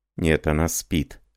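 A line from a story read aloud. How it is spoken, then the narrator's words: Plain. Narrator (Russian): ответил Жорж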